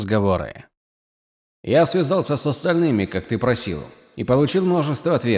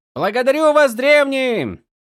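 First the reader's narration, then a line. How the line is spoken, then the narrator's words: Shouted. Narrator (Russian): крикнул он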